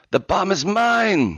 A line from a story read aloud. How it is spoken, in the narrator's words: she screamed